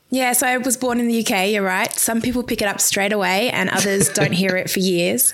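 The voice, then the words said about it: English accent. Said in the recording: “I'm sensing there's an English accent there.”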